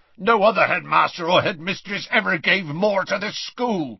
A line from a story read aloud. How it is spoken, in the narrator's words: growled Hagrid